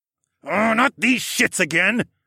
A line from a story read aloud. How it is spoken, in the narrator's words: I growled